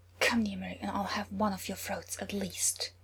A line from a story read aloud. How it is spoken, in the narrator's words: he hissed at them